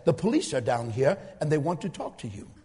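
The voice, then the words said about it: Put-on Indian accent. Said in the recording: “with a chopped up Indian accent”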